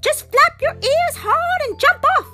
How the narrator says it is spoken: he shouted

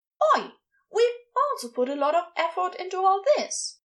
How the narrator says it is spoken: a different cultist retorted indignantly, getting huffy

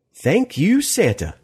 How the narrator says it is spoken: she said cheerfully

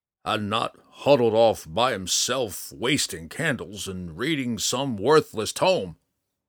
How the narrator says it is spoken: Matthias growled

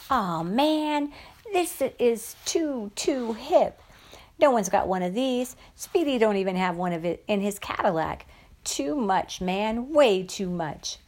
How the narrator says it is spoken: Even cool old Byron forgot how cool he was and screamed out

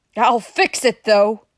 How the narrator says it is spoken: cried, with an awful oath

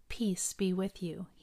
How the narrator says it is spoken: he said

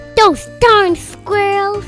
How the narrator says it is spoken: yelled Old Man Folkwire

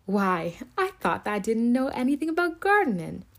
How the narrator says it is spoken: exclaimed

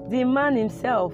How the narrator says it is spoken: called out

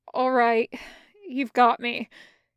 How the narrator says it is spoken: sighed

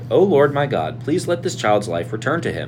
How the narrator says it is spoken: cried out to the Lord

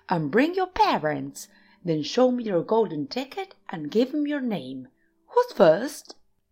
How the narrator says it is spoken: called out

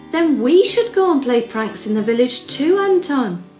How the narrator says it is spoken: cried Babette

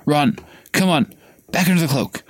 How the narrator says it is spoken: Hermione panted

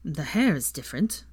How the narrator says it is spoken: said in a grumbling tone

